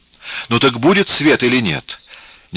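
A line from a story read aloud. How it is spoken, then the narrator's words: Impatient exclamation. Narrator (Russian): нетерпеливо воскликнула уже и муза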